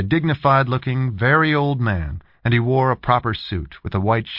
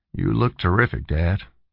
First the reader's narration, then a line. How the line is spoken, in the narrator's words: he said gently